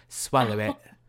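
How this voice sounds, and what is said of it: Put-on British accent. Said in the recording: “she'd do it in a British accent. She was British.”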